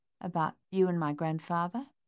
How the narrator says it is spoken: Coralie chuckled

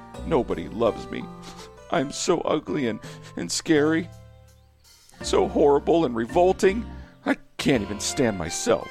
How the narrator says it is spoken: he sobbed through a burst of tiny tears

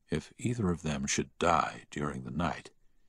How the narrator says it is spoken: he heard the doctor whisper to the nurse

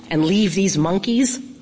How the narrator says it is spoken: Lawn Boy said

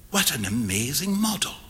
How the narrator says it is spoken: whispered Huey

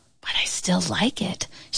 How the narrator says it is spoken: whispered

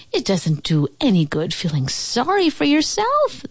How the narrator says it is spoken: they cried

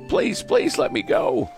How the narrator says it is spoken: the oyster catcher sobbed as his toe throbbed

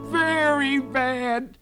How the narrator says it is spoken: cried the rabbit

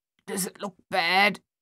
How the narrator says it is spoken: Thaddeus asked, his voice thick and halting

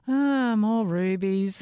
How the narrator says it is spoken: she said with a bored yawn

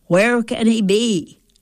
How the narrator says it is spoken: I'd ask loudly

